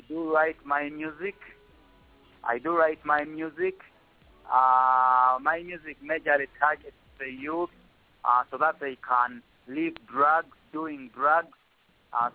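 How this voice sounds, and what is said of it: Noticeable foreign accent. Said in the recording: “I love your accent. Wow, wow, wow.”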